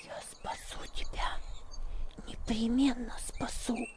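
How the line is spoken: Girl whispering in ear. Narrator (Russian): шепнула девочка ему на ухо

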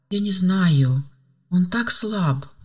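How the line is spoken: Sighing. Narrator (Russian): вздохнула Ева

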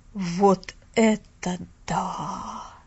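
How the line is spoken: Breathless exclamation. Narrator (Russian): Выдохнул мистер Пендлтон

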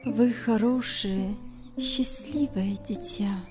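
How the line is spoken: Quiet trembling voice. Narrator (Russian): сказала она тихим дрожащим голосом

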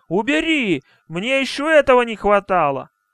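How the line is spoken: Shout. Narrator (Russian): Он даже крикнул

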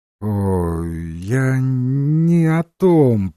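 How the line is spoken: Mumbling. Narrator (Russian): промямлил Уизер

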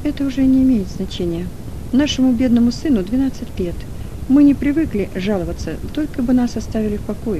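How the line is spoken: Plain. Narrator (Russian): ответил Кран

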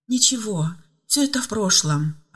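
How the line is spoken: Relieved sigh. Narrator (Russian): облегченно вздохнула Ева

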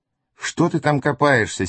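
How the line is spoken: Angry question. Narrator (Russian): сердито спросила продавец

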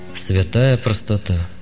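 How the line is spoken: Sigh. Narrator (Russian): вздохнул священник

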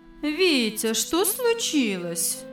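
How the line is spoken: Gentle mother's question. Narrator (Russian): ласково спросила мама

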